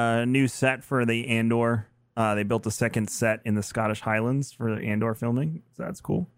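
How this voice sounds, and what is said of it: Usual voice. Nothing is said of it.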